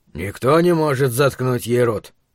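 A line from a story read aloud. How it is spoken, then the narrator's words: Distant muttering. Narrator (Russian): пробурчал Крис Ортега из хвостовой части салона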